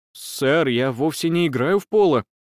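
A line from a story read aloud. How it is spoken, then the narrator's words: Disconcerted mutter. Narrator (Russian): обескураженно пробормотал Перкинс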